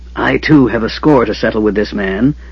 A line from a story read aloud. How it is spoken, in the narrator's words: the mage hissed